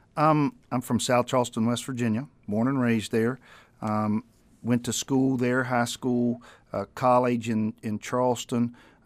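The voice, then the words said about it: Southern US accent. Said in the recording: “accent is not... I guess we have a mixing bowl of accents here in Anchorage, but you're obviously from somewhere down south”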